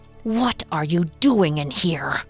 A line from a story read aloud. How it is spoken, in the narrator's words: hissed Lou